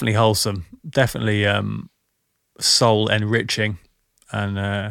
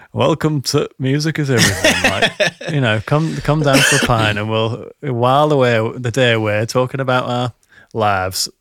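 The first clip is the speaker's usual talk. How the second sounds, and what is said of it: Put-on accent, not very good. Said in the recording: “That's not a very good accent”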